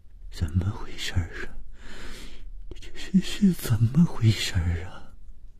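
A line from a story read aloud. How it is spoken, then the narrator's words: Trembling voice. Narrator (Chinese): 谭小颖声音颤抖地说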